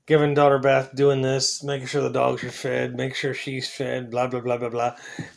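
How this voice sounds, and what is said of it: Slightly out of breath. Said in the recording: “I'm a little out of breath.”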